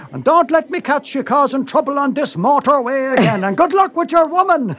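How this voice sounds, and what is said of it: Put-on accent. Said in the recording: “great accent”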